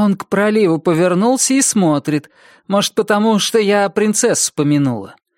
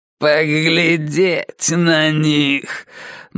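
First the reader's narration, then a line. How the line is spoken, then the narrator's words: Sarcastic mutter. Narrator (Russian): бормочет этим своим язвительным голосом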